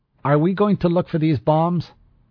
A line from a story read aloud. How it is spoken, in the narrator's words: Ortega said loudly